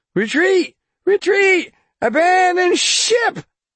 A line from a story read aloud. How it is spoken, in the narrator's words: Hawk shouted